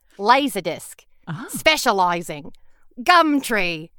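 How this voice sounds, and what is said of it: Put-on Australian accent. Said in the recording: “How's my Australian accent? ... That's good. ... That is really good. It's good in what I would consider like kind of a, you know, cheap comedy way.”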